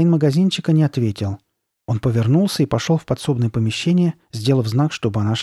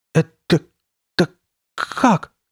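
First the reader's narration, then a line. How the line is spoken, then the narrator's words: Stuttering. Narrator (Russian): заикаясь, проговорила Карли Бет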